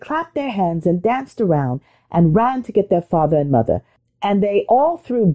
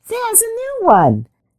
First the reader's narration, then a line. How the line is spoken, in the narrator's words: the littlest shouted